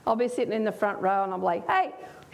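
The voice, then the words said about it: Speaks with a noticeable accent. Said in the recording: “so you can get used to my accent for those that haven't heard me speak before”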